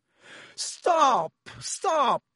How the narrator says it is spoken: screamed Lockhart

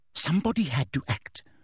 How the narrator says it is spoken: breathed Umbridge

